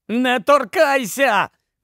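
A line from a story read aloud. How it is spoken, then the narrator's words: Uncontrolled shout. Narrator (Ukrainian): крикнув Гаррі, котрий не в змозі був стриматися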